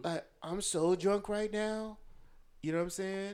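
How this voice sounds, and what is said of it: Put-on white girl voice. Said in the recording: “the try to be white girl voice, that's the female.”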